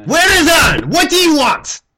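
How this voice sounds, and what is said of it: Loud yelling character voice. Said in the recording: “Why are you yelling so much?”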